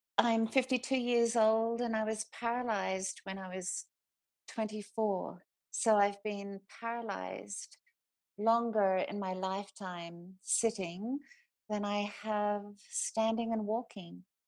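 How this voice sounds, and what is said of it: Australian accent. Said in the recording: “The accent is Australian, and I've been here for 30 years, but I think still managed to keep my accent.”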